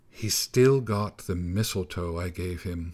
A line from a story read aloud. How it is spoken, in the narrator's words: muttered the snow boy to himself, looking tearful for a moment